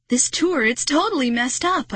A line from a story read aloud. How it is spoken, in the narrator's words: I shrieked